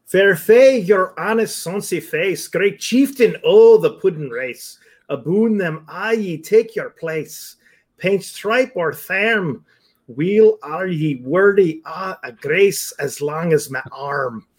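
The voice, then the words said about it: Deliberately bad Scottish accent. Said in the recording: “bad Scottish accent? ... You want it in a bad Scottish accent? I give it to you, bad Scottish accent.”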